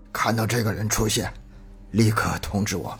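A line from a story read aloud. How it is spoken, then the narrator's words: Slightly hoarse. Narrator (Chinese): 声音有些沙哑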